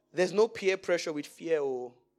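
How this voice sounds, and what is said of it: Strong Nigerian accent. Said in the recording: “my full Nigerian accent.”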